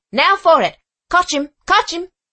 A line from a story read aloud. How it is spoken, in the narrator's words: shouting